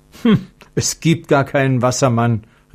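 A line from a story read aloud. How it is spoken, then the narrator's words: Calling out. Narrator (German): rief Konrad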